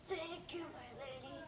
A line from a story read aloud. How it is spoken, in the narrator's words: His lips whispered forth a humble